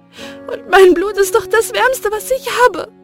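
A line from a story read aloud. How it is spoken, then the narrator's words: Sobbing. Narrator (German): schluchzte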